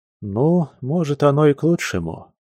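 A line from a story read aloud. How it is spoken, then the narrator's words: Sighing. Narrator (Russian): вздохнул Алексей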